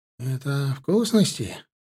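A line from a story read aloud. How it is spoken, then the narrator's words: Guilty grumble. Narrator (Russian): буркнул виноватый Курбан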